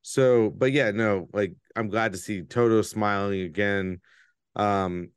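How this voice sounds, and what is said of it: Usual voice. Nothing is said of it.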